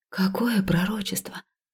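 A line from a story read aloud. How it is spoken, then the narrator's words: Fearful, constricted whisper. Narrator (Russian): прошептала я, чувствуя, как страх сковывает мое горло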